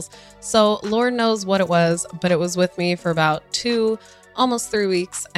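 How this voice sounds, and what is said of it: Slightly lower, recovering voice. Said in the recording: “my voice is finally back ... I had like strep throat or laryngitis ... if I sound a little lower than usual, it is because my voice is still recovering”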